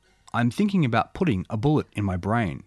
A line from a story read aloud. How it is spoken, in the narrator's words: said